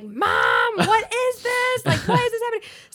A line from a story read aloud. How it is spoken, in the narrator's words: she hears him screaming